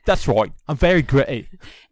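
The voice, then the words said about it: Put-on British accent. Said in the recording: “What if he's got a Brit accent?”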